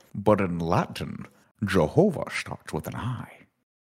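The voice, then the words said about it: Exaggerated Scottish Sean Connery impression. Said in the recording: “Does he always talk like that? ... Yeah, he's Scottish. ... Is that a Scottish accent? ... It seems like extremely, like, a lot. ... That's Sean Connery, man.”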